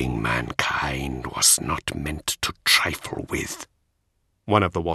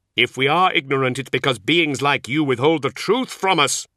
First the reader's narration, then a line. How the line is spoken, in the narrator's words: Zahariel shouted